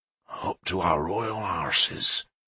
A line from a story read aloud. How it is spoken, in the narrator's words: Leofric said quietly